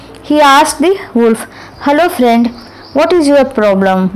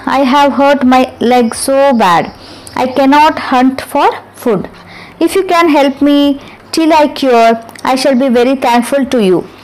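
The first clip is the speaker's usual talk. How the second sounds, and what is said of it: Weak, feeble voice. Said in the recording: “in a weak voice”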